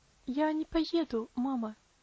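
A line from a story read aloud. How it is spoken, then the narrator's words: Quiet reply. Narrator (Russian): тихо ответила Аделейд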